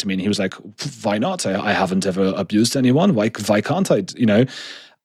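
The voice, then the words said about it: Imitates another person's accent. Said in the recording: “It's a very good accent, by the way... that just was how his accent sounded”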